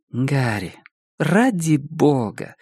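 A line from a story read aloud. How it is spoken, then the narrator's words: Sighing. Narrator (Russian): вздохнула Денис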